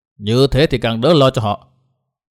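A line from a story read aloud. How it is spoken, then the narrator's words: Cold old man. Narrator (Vietnamese): Lão một giò lạnh lùng nói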